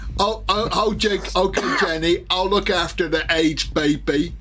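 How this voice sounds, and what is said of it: Forrest Gump impression. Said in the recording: “my impression of Forrest Gump”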